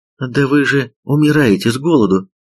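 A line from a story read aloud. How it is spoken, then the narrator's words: Exclamation. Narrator (Russian): воскликнула Санмун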